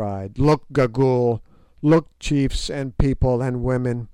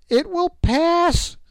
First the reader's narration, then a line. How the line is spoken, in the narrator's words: she cried